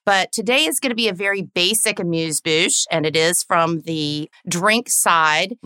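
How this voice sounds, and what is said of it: Southern American accent. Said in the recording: “pardon my Southern accent”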